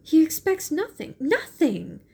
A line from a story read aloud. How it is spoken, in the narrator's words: cried Mary